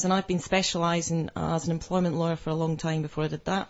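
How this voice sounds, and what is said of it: Scottish accent. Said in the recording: “you'll probably be able to tell from my accent that I'm not local ... Dundee in Scotland”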